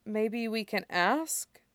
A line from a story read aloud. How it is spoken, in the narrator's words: Isaac says hesitantly